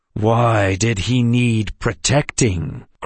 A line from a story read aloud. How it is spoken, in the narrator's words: Grandpa asked through gritted teeth